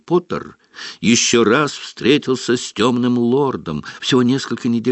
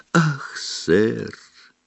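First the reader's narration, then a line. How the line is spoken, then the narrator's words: Breathless exhale. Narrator (Russian): выдохнул он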